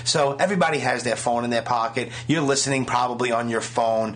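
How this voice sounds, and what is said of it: Brooklyn accent. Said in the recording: “The guy's Brooklyn accent is annoying after a while.”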